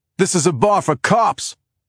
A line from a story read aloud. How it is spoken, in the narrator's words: someone shouts